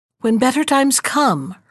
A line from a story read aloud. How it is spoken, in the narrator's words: her protectress said cheerfully